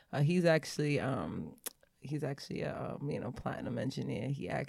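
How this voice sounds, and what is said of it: Sexy put-on voice. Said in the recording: “Why you got your sexy voice on”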